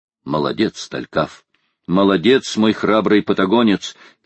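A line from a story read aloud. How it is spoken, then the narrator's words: Shout. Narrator (Russian): крикнул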